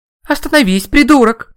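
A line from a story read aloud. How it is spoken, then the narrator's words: Girl shouting. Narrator (Russian): кричала девушка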